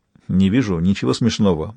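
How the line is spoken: Grumble. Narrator (Russian): буркнул Сойер

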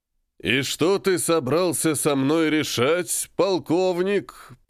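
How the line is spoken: Thunderous booming. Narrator (Russian): прогремел я

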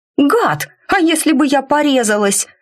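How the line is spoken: Shouted out. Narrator (Russian): выкрикнула

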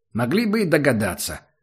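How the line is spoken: Offended, then a snort. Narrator (Russian): с обидой сказал Убер и тут же хмыкнул

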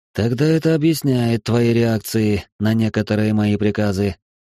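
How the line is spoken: Calm. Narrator (Russian): спокойно отреагировал Ниоки

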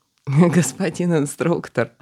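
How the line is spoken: Laughing loudly. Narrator (Russian): расхохотался в ответ собеседник

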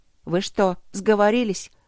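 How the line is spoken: Gloomy question. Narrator (Russian): мрачно осведомилась я

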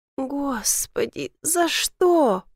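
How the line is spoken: Moan. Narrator (Russian): простонала

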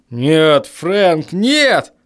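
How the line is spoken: Strained, struggling. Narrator (Russian): выдавил он, отпихивая мои руки

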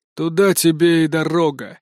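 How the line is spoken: Snorting remark. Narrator (Russian): хмыкнул он

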